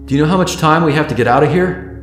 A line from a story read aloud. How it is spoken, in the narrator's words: Tyler called out